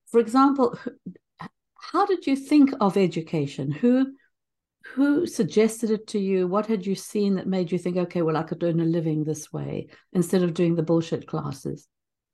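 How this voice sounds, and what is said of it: Speaks with an accent. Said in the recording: “Does bullshit sound okay in my accent?”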